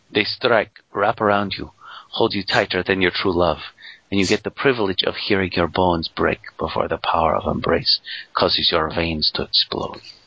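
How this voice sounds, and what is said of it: Put-on Latino accent. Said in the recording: “Latino accent”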